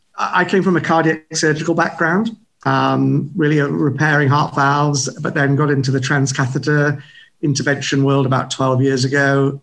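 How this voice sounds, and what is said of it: British English accent. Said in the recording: “as you can probably tell by my accent, I'm not from the US. So I was a practicing physician in London, in England ... It's a kind of weird accent”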